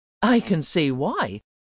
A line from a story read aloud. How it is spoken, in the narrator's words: laughed Logan